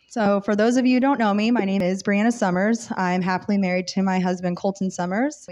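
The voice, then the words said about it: Slightly rough, sick-sounding voice. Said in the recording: “I started getting kind of sick last night, so I'm sorry if I start coughing and my voice is a little rough.”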